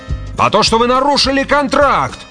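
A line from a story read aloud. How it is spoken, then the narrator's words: Yelling. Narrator (Russian): орал Грегор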